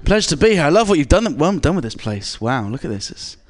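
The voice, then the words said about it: English accent. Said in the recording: “All the way from England. ... my accent”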